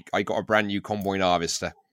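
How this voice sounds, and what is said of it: Put-on strong West Country accent. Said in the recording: “West Country accent, like Cornwall, Devon, Bristol ... it sort of gets stronger as you go west ... As you go south, it gets even stronger ... that's a rare accent”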